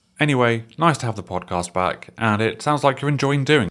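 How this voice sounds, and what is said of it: Sultry, crisp, smooth voice. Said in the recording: “the sultry sound of his voice ... His voice is so perfect ... It's so crisp”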